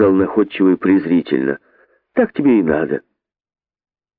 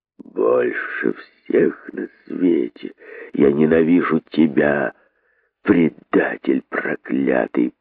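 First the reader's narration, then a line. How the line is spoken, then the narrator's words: Hissed through teeth, bitter hatred. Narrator (Russian): процедил удав пустынник, с горькой ненавистью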